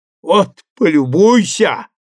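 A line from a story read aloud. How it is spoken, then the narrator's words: Shouting. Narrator (Russian): закричал он Маркову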